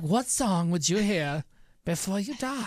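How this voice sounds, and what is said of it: Put-on British accent, evil Harry Potter. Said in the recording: “That's British. I don't know. It's like an evil Harry Potter.”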